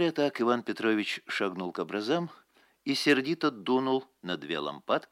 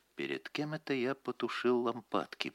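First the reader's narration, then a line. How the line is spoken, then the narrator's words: Whispered. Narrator (Russian): прошептал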